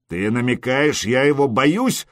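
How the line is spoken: Growled. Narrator (Russian): рыкнул Скьорн

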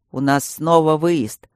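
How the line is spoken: Deep bass voice. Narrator (Russian): басил Матвей

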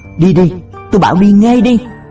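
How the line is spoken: Choked-off shout. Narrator (Vietnamese): Tiếng hét thắt nghẹn ở nửa chừng

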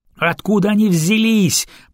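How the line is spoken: Moaning over the radio. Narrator (Russian): простонал кто-то в эфире

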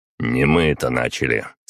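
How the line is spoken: Calm reply. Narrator (Russian): спокойно ответил я

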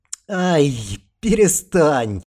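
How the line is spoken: Weak exhausted squeak. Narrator (Russian): Ита, уже не имея сил смеяться, лишь слабо попискивала

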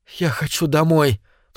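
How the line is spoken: Sobbing. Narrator (Russian): всхлипнул Дэвид

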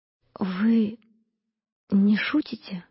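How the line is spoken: Whisper. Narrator (Russian): прошептала она

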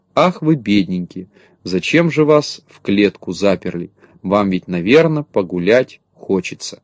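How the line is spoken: Sad, sighing. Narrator (Russian): грустно вздыхала и говорила

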